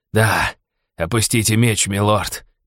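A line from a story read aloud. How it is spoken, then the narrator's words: Hissed. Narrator (Russian): прошипел он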